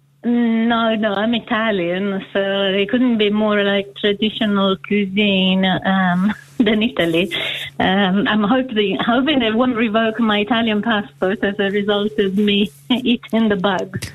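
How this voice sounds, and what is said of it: Foreign accent, Italian speaker. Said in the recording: “You do have an accent which isn't originally from this part of the world.”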